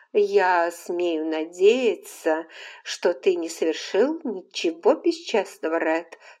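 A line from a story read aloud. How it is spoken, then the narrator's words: Plain. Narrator (Russian): сказала она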